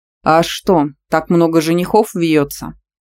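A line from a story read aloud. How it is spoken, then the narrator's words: Angry wolf's growl. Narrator (Russian): Прорычал злой серый волк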